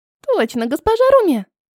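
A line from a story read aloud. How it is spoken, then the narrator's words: Squeaking pastry creature. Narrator (Russian): пискнула пироженка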